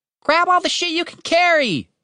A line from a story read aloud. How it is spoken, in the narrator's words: he shouted to Cooper